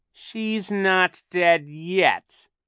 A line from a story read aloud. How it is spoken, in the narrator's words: Captain Sham said in a terrible voice